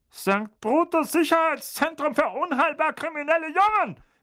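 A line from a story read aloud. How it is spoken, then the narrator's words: Barked, panicky. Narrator (German): bellte Onkel Vernon, einen deutlichen Anflug von Panik in seiner Stimme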